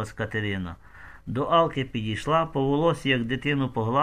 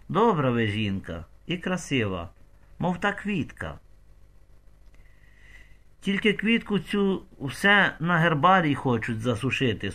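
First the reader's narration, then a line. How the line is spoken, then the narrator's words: Sad sigh. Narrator (Ukrainian): сумно зітхнула Алка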